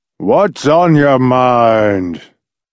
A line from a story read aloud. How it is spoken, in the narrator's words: said in a loud, rumbling, thunder-like mutter